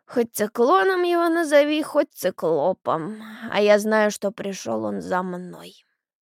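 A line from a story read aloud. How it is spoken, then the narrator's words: Creaky voice. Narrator (Russian): проскрипела Евдокия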